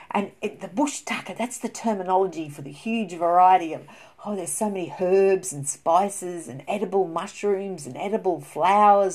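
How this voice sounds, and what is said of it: Australian accent. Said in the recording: “that's an Australian terminology, as you can tell by my voice here ... I am born and bred in Australia”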